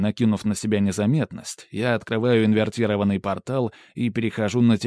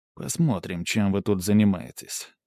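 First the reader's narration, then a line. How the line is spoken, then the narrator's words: Inner mutter. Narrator (Russian): мысленно пробормотал я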